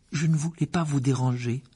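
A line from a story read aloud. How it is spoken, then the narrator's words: Unsteady voice. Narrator (French): dit-il d'une voix mal assurée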